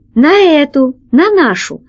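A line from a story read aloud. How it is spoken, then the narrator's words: Exclaiming. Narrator (Russian): воскликнул лохматый практикант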